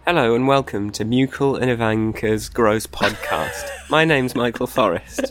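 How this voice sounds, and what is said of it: Congested, stuffy-sounding voice. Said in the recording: “I've got a cold, so my voice sounds wrong and different”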